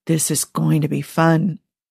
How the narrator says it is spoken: Joe looking delighted as he whispers

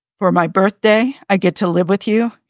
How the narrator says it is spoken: he asks

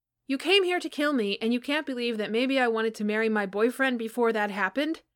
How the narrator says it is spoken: Johnny shouted at him

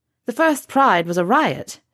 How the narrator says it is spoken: she says, in a mildly teasing voice

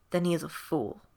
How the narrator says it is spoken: he muttered

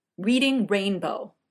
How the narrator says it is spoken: Jeff snapped

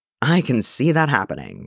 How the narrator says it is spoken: Steve sighed

